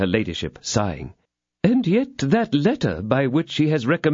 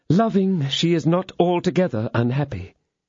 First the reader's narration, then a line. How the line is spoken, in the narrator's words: said her ladyship with a sigh